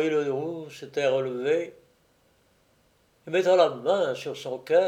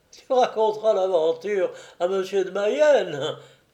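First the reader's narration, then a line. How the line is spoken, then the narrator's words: Laughing. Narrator (French): dit le roi en riant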